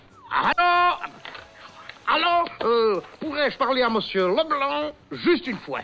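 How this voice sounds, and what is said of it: Put-on Belgian French accent. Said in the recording (French): “Je prends l'accent belge?”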